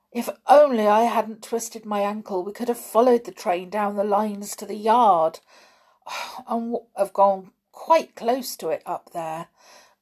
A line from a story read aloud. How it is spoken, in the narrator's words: groaned Dick